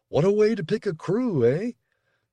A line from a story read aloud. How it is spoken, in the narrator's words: He laughed